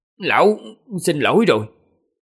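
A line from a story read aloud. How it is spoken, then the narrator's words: Sudden cry through gritted teeth. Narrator (Vietnamese): đột nhiên cắn răng kêu lên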